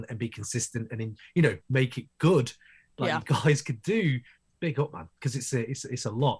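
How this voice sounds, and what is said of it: British accent. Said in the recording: “from the UK, obviously, from my accent, you can tell.”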